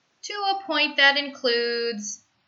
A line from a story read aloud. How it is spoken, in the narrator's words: he sighs